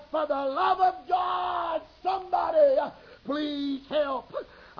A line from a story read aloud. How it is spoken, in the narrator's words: cried